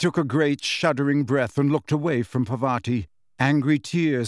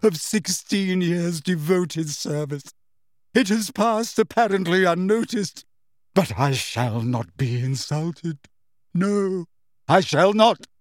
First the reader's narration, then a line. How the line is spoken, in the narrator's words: she choked